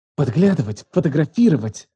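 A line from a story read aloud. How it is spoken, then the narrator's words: Furious, disgusted whisper. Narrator (Russian): Ее голос сорвался на шепот, полный ярости и отвращения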